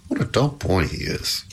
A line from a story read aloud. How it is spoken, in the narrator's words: muttered Pandora